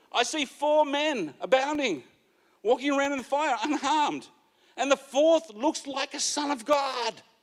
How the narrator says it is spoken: Nebuchadnezzar shouted, face obviously still contorted

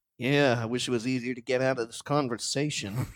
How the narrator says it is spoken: Scoops, sort of like mumbles quietly

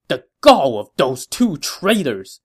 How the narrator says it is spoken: he said angrily

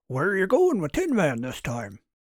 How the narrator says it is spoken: Hendrix, Martin grunted between tugs

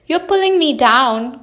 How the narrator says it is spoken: cried his brother

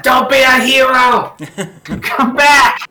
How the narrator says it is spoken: Ungo yells to Clapperclaw

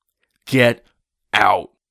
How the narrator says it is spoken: Jeffrey shouted far more loudly than he'd ever spoken to me yet

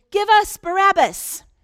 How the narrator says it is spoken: the rioting crowd around them shouted

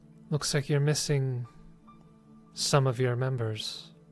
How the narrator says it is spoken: she quietly says

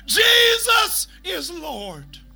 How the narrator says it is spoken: he's yelling out

